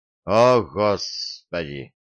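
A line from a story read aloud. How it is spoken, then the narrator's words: Sighed. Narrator (Russian): вздохнул я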